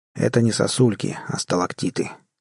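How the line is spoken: Calm correction. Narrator (Russian): спокойно поправил Барри Брент

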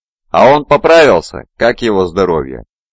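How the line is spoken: Merry loud laughter. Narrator (Russian): весело расхохоталась

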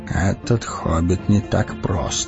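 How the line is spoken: Mumbled. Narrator (Russian): пробормотал Гэндальф

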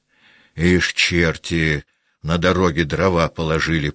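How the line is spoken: Grumbled. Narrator (Russian): проворчал он

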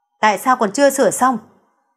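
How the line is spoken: Impatient, irritated. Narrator (Vietnamese): sốt ruột bực bội nói

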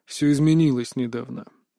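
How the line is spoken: Heavy sighing speech. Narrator (Russian): произнес он, тяжело вздохнув

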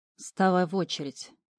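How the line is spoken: Grumbling from corner. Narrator (Russian): проворчал из угла Ред

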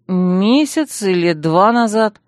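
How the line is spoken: Uncertain lie. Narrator (Russian): соврала я неуверенно

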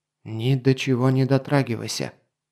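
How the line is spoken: Whisper. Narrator (Russian): шепнул он

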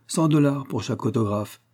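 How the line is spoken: Cold offer. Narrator (French): proposa froidement M

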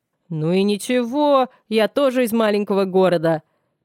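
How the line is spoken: Deep bass voice. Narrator (Russian): пробасил Аудан

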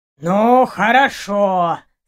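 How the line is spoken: Creaky old voice. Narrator (Russian): скрипучим старческим голосом проговорил хранитель

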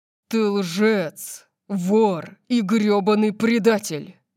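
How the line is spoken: Growled in fury. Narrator (Russian): прорычал он

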